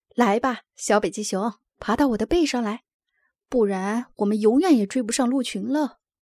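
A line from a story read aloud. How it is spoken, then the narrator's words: Laughing. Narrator (Chinese): 奥斯卡笑着说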